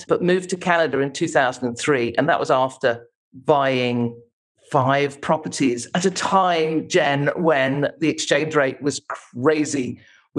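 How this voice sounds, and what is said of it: English accent. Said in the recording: “I'm English, obviously, as you can tell by my accent”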